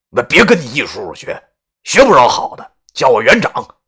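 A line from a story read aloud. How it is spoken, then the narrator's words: Mock-stern shout. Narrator (Chinese): 故作严肃的对他吼道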